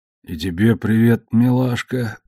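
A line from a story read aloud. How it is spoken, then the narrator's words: Grumbled. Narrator (Russian): пробурчал он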